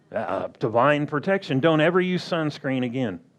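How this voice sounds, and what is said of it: Sarcastic delivery. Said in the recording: “I'm saying that sarcastically.”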